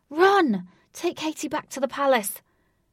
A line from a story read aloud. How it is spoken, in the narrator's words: Wraith shouted